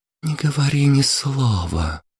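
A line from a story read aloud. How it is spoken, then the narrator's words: Languid whisper. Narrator (Russian): шепнула она ему томным голосом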